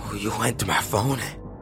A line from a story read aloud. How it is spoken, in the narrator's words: he muttered softly